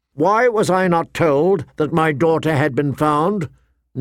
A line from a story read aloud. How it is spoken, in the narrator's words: Ned demanded, his voice ringing